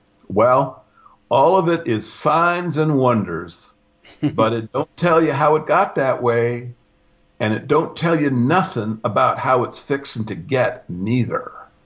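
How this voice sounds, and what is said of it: Weak put-on Southern accent. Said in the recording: “Sorry for the weak, Southern accent.”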